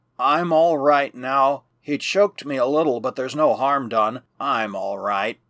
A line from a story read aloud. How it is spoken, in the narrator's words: Jack murmured